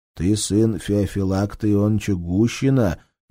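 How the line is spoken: Gentle question, doctor. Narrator (Russian): мягко спросил доктор

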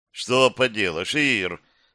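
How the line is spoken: Sighing. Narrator (Russian): вздохнул он

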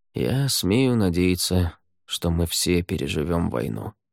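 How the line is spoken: Quiet. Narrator (Russian): тихо сказал Рай

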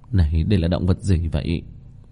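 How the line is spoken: Dazed muttering. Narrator (Vietnamese): Kim Mẫn Cơ sắc mặt ngây ngẩn lẩm bẩm

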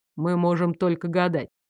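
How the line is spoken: Soft. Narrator (Russian): мягко проговорил Луциус

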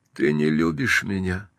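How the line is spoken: Tired repetition. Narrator (Russian): устало повторила она

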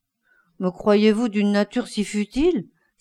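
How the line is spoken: Sullen exclamation. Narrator (French): s'écria Dorian Gray maussade

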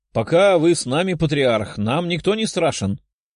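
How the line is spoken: Chuckling soldier. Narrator (Russian): хохотнул один из бойцов

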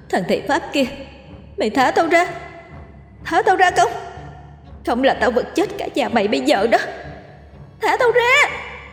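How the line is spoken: Frenzied snarling scream. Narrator (Vietnamese): Nó nhè răng lồng lộn gào thét

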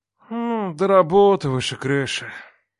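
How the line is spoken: Sigh. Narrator (Russian): вздохнул брат

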